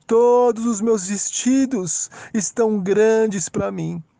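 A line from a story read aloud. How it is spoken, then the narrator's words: Sighing woman. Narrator (Portuguese): Com um suspiro, ela disse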